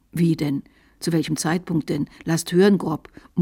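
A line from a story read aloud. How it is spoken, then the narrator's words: Disturbed muttering. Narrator (German): murmelte er verstört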